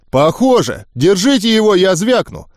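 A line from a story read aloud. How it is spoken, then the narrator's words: Shouted. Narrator (Russian): крикнул самый низкорослый из них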